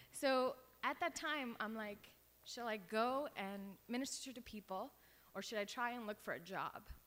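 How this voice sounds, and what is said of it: Strained voice, losing their voice. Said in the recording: “I'm losing my voice.”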